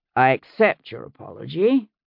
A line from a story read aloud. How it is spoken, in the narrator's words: he said dryly